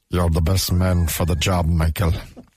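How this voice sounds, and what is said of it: Irish accent. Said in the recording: “That's an Irish accent, actually. ... It's only Irish when he says the word Michael.”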